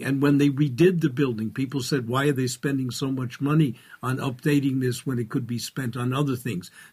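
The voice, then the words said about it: New York accent. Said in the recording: “as a New Yorker, as you can easily tell by my accent”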